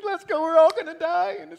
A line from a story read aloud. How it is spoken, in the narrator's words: crying and whimpering